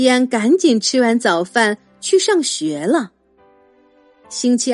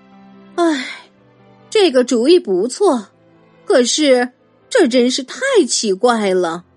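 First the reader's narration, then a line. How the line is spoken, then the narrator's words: Sighing mother. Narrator (Chinese): 妈妈叹着气说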